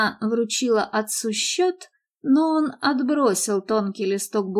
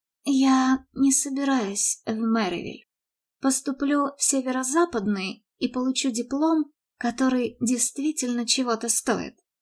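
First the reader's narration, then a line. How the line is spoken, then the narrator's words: Calm, quiet announcement. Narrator (Russian): Мередит спокойно и тихо объявив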